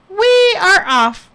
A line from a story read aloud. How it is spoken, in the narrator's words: exclaimed, with a happy